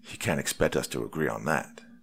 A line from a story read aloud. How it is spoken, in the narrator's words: Wyatt exclaimed